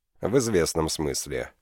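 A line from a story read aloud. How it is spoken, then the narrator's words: Cold tone. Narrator (Russian): холодным тоном произнес Сандес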